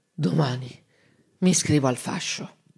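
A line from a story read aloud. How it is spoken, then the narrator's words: Calm, soft, spluttering speech. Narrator (Italian): si calmò, piano piano, tra una bollicina di saliva e l'altra, disse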